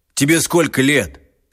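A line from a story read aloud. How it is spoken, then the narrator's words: Stern. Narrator (Russian): Лешка сказал строго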